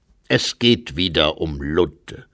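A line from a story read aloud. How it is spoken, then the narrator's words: Plain. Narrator (German): sagte der Novizenmeister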